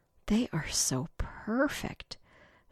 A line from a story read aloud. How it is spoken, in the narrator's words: she breathed again